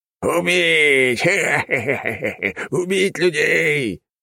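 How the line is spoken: Zombie pirates laughing. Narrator (Russian): смеялись зомби-пираты

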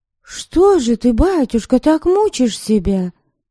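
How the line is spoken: Involuntary exclamation. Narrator (Russian): Невольно воскликнула она

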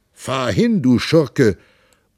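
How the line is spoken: Roaring at full strength. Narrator (German): Pantagruel brüllte aus Leibeskräften

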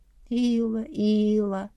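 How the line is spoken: Sigh, hiding a smile. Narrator (Russian): вздохнула, пряча улыбку

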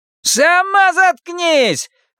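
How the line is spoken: Yelling. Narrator (Russian): вопит Селен

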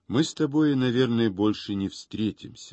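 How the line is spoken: Plain. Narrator (Russian): сказал он

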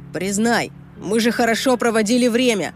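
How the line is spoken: Shouted after someone. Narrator (Russian): прокричал Брэндон мне вслед

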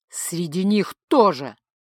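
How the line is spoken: Growled reply. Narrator (Russian): рыкнул в ответ Ингвар

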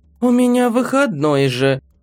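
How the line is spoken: Sleepy. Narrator (Russian): сонно ответила Чиа

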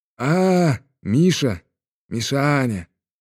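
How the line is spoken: Affectionate wheeze, old watchman. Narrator (Russian): ласково просипел сторож

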